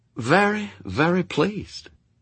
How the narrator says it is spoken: he breathed

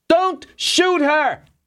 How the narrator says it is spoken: Borkin screamed

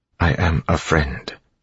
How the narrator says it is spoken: said quietly

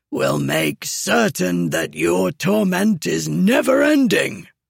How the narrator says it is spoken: Kamran said, the rasp of his voice like gravel

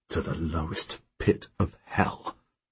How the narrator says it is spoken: I mutter

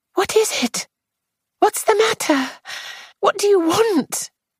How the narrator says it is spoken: She said, a little breathlessly

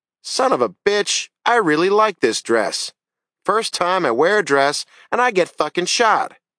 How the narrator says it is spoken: Jamie shouted

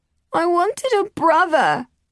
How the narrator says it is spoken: Edwin wailed

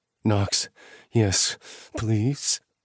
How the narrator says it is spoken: whimpered

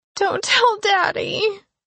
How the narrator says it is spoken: she sobbed

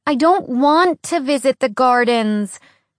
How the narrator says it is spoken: Alex said to the guard in a whiny voice

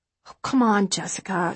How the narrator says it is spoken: she says with a sigh

